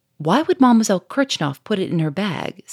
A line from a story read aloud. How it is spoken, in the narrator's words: said the Duke quickly